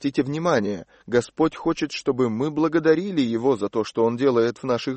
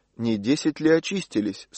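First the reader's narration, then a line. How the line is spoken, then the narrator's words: Plain. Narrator (Russian): спросил Иисус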